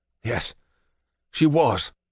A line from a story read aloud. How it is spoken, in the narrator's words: I wheeze